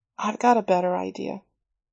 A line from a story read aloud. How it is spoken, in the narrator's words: her voice softened